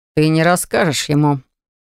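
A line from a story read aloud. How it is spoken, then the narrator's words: Smug snort. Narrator (Russian): самодовольно хмыкнул Винсан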